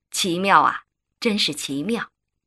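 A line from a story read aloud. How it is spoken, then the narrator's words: Intrigued sigh. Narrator (Chinese): 周大人一听，饶有兴趣地叹道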